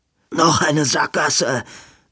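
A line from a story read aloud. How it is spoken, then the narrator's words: Gasping. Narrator (German): japste Edwin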